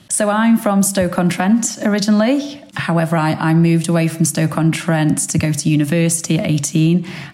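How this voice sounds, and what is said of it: Stoke-on-Trent Potteries English accent. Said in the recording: “I'm picking up an accent which isn't local to the area ... I've not lost my accent ... my Potter's accent”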